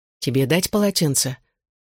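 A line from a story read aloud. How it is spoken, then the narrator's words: Quiet offer. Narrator (Russian): тихо предложил Джонни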